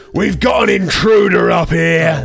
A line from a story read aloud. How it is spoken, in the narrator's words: Skylar, he looks at you and he draws this, like, longsword off his back and yells